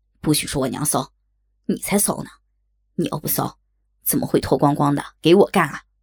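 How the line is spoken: Angry. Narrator (Chinese): 小光怒道

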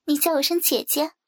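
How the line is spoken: Smiling. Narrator (Chinese): 我笑着说

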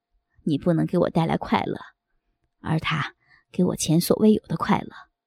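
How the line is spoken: Cold. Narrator (Chinese): 他冷冷地说

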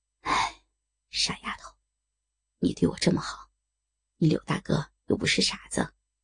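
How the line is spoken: Low sigh. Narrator (Chinese): 低叹道

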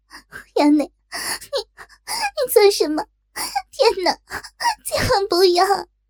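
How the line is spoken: Squirming breathless pleading. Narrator (Chinese): 痒得若真全身扭摆，口叫求饶不迭

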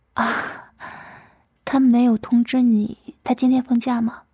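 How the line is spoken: Smiling. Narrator (Chinese): 老师嘴角微笑道

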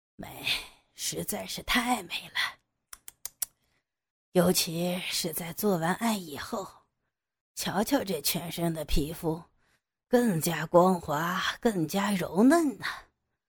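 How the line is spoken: Murmuring to himself. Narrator (Chinese): 他喃喃自语着

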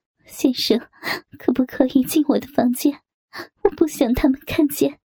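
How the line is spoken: Mournful pleading. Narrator (Chinese): 蔡娟悲鸣哀求

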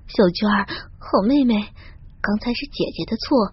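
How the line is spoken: Low pleading. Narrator (Chinese): 低声哀求道

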